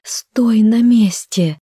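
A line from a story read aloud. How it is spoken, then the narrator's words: Moaning. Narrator (Russian): простонала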